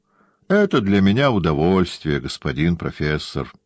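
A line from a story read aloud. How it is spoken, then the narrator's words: Even voice. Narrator (Russian): он говорил своим ровным голосом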